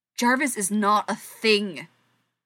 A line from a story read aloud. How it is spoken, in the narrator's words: she snarls